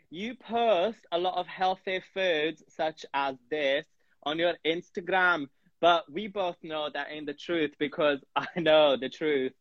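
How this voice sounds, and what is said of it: Put-on accent. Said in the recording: “What the hell is this accent? It's an accent. I'll stop it. ... People are messaging about the accent.”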